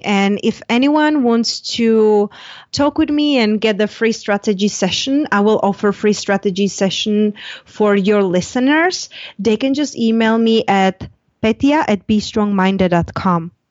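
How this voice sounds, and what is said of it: Foreign accent. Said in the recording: “sound so exotic. Your accent is completely beautiful”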